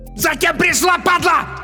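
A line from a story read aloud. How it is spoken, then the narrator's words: Hysterical yelling from behind. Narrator (Russian): истерично заорал сзади Бабич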